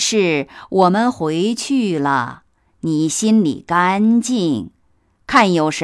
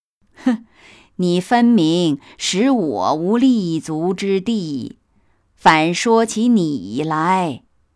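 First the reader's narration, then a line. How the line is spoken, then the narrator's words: Sneering. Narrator (Chinese): 贾母冷笑道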